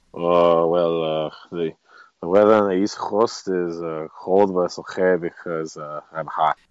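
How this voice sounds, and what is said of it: Impression of Ivica Zubac. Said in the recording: “do an impression of Zubac”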